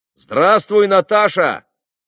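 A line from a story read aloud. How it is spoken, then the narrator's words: Shout. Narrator (Russian): крикнул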